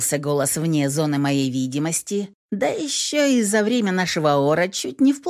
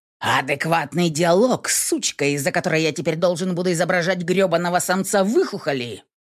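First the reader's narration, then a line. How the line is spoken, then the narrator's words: Vicious snapping retort. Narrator (Russian): Огрызнулся мерзавец, злобно прищуриваясь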